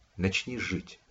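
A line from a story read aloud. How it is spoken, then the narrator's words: Quiet. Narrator (Russian): сказала негромко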